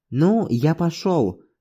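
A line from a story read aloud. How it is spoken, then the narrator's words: Plain. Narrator (Russian): сказал я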